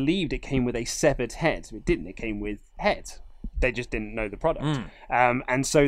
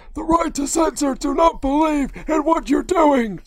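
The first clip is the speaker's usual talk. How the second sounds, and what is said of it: Imitates another person's voice. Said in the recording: “It's hard to do a Steven Richards voice.”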